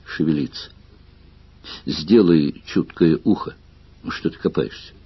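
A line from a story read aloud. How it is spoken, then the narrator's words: Muttering. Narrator (Russian): бормотание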